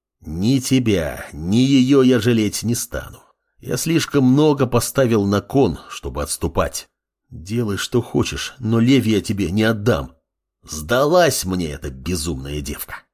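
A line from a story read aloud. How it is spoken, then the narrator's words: Growling. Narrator (Russian): Рыкнул Амор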